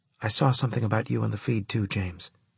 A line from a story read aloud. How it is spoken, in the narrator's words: she whispered